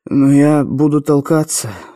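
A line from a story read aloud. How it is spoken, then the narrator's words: Sleepy mumble. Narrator (Russian): сонно пробормотал Андрей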